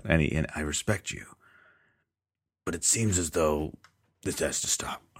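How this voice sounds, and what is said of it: Impression of a villain character's voice. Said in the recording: “I'm doing a pretty good impression ... your Kingpin voice spot on”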